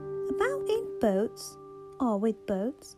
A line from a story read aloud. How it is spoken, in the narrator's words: the rat went on composedly, with a pleasant laugh